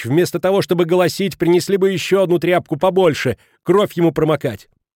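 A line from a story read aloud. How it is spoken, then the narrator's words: Shout. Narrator (Russian): крикнула причитающей госпоже Халич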